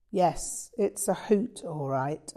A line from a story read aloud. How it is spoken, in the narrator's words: I sighed